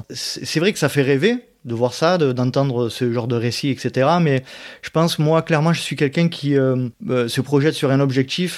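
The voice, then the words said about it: Southern French Provençal accent. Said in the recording (French): “je suis d'Aix-en-Provence, à côté d'Aix-en-Provence, voilà. D'où la raison de mon accent.”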